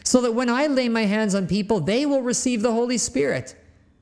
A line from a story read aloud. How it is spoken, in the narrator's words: exclaimed